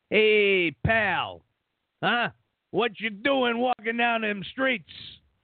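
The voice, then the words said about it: Put-on New York cop accent. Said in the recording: “can you go a New York cop?”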